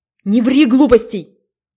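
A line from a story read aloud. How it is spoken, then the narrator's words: Angry shout. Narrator (Russian): зло крикнул Иван Иванович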